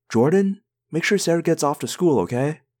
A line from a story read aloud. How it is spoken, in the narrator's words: I called out